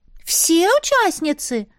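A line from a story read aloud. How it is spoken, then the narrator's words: Surprised exclamation. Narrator (Russian): удивленно воскликнула Рыжуля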